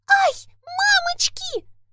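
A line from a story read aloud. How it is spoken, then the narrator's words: Shrill squeal. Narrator (Russian): взвизгнула Маргоша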